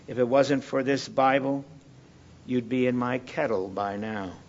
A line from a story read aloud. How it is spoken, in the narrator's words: Replied the chieftain calmly